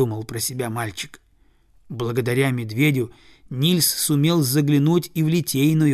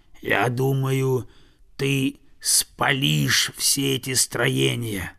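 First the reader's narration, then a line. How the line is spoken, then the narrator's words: Bear's growl. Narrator (Russian): прорычал медведь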